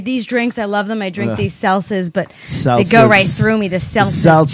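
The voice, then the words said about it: Thick Long Island accent. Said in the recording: “Sometimes your Long Island accent is so thick that I notice it... like, you know, what's her face from King of Queens? Like, you're like that hardcore sometimes.”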